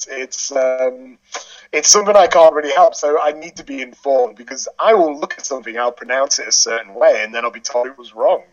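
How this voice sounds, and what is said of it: English accent, slight Northern twang. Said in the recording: “a slightly Northern English twang ... being English”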